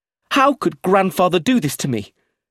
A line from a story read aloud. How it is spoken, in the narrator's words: he said, his voice high and angry